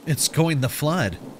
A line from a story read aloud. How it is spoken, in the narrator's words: I stated, my voice trembling with uncertainty